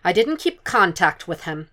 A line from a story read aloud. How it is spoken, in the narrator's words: she said curtly